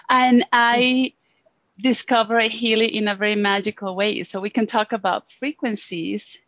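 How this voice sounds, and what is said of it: Venezuelan-accented English. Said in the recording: “I was born in Venezuela. So you're going to notice an accent as I speak.”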